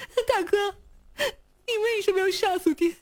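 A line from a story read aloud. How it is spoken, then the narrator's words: Sobbing question. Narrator (Chinese): 娄天舍像个泪人似的哭着问道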